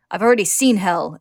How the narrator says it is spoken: snarls, remembering their human transmutation attempt

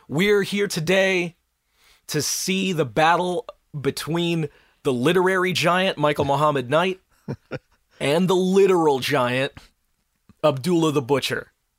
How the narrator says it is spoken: a barker starts shouting at the crowd

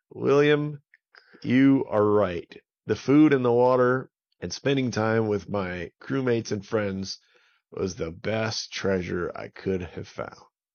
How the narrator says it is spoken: he laughed, and he said

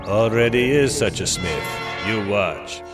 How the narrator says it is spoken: he answers flatly

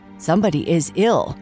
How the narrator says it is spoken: the officer answered

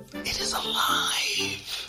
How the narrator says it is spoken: breathed Ufa

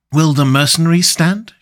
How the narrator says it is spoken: she asked anxiously

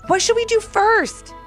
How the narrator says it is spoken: Haylee said excitedly

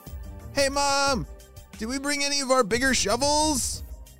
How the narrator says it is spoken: Malachi called out

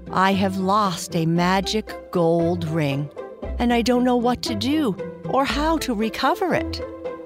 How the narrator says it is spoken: sighed in answer

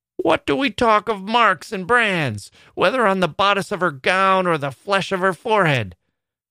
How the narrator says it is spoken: cried another female, the ugliest as well as the most pitiless of these self-constituted judges

